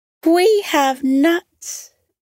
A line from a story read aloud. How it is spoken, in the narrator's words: Miggy cried merrily